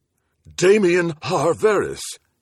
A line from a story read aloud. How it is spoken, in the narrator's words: he exclaimed with some wonderment